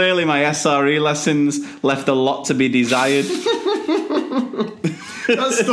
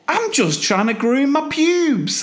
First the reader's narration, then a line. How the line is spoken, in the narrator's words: Jimmy indignantly defends himself by saying